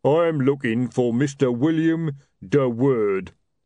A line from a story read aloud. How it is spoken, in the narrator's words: rumbled a voice above them